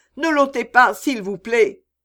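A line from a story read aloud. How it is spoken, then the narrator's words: Heavy sobbing. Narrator (French): elle sanglota de toutes ses forces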